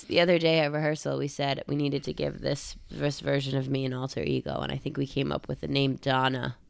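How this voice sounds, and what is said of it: Raspy voice. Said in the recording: “Allergies are happening, y'all. ... Can you hear it in my raspy voice?”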